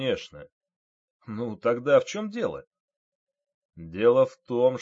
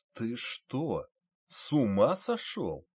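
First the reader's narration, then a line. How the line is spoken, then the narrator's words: General's quiet question. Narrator (Russian): тихо спросил генерал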